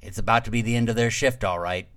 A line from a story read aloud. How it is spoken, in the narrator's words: said